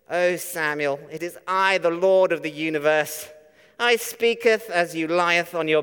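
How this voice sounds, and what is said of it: Mock holy King James-style voice. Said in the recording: “in a really holy voice ... really holy or churchy or sort of King James sort of voice”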